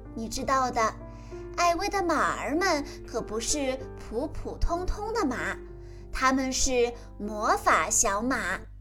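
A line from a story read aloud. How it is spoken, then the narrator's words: Soft. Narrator (Chinese): 艾薇……轻声说道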